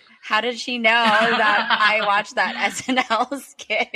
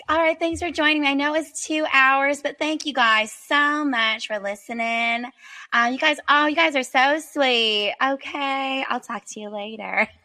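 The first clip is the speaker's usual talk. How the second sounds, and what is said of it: Performs a put-on accent. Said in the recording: “that's a really good accent that you're doing there... good accent”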